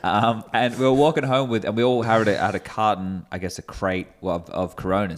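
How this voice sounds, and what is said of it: Australian accent. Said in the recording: “your accent. Where is your accent from? We're from Australia.”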